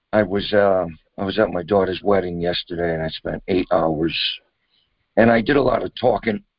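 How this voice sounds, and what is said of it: Hoarse, strained voice. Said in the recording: “My voice is a little shot. ... my voice is kind of shot. So it might be difficult to hear. ... you can tell your voice is stressed”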